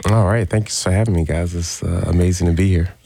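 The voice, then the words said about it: Smooth radio-announcer voice. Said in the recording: “you have a radio voice. That's a great radio voice.”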